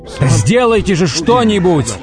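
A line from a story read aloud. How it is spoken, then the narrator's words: Yelling. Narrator (Russian): вопил он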